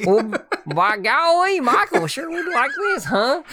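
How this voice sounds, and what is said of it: Gomer Pyle-style character voice. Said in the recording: “Do you really turn into Gomer Pyles whenever you think about me? ... That was a horrible impersonation”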